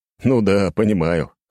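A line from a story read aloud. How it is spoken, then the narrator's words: Hmphing. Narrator (Russian): хмыкнул он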